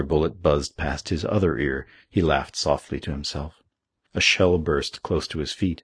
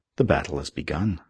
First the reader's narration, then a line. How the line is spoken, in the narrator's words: murmured